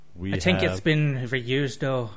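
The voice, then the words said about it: Deliberately bad put-on accent. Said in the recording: “you're affecting a horrible accent”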